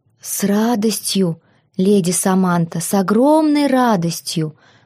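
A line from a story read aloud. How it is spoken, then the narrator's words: Plain. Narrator (Russian): ответил он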